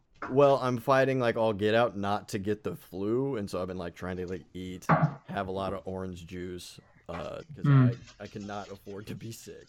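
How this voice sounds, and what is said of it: Slightly raspy voice. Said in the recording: “my voice is a little bit raspy”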